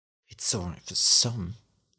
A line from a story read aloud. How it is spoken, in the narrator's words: the aunt muttered